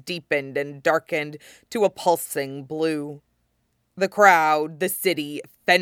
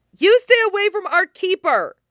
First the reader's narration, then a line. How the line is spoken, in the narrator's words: cried